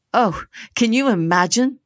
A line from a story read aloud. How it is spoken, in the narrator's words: the girls giggled, inventing a bashfulness that did not come naturally